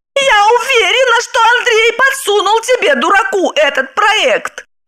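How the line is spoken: Shouting. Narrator (Russian): кричала она

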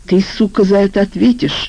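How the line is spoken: Hiss. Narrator (Russian): прошипел Валера

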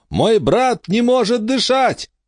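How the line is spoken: Shouting through cupped hands. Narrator (Russian): Эмма сложила руки рупором, приставила ко рту и закричала

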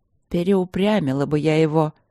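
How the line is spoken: Grumbling. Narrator (Russian): ворчала царица

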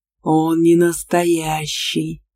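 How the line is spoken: Jealous growl. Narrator (Russian): ревниво рыкнул рядом Аргар

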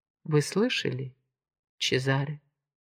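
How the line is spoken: Plain. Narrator (Russian): сказала она

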